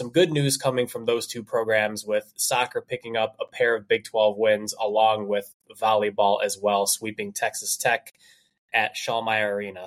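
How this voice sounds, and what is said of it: Congested, stuffy voice. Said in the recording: “I've been kind of struggling with some allergies today. I apologize if I sound a little congested here ... I apologize if I sound a little congested”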